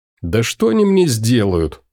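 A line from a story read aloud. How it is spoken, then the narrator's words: Snorting chuckle. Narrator (Russian): хмыкнул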